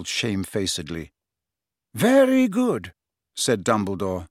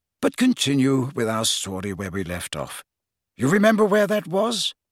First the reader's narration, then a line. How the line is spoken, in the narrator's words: said Dumbledore more kindly